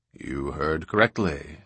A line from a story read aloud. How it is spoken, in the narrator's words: said Darrell quietly